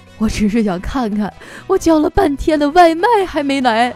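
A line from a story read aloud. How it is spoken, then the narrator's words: Crying. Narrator (Chinese): 最后他哭了，他说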